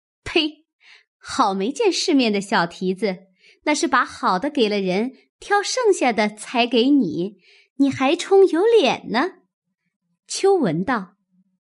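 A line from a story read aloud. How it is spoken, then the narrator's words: Mocking laugh. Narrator (Chinese): 晴雯笑道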